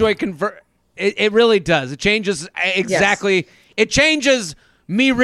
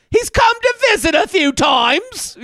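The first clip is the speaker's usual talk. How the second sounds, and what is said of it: Hackneyed put-on English accent. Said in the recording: “reading this in an English accent and a hackneyed”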